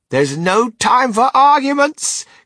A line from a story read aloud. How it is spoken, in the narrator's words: cried Mr